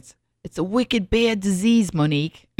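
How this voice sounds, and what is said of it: Put-on Boston accent, not done well. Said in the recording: “I can't do a Boston accent. I can't do it well. ... I can't do Boston.”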